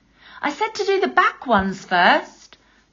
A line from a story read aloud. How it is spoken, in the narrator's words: the crocodile called out